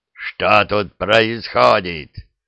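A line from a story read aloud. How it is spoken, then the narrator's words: Growled. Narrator (Russian): прорычал наместник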